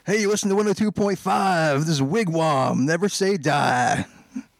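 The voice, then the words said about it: Rock DJ radio voice. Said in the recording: “rock DJ ... Do your best rock DJ voice ... That's pretty good.”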